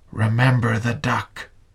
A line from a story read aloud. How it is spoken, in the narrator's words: She whispered again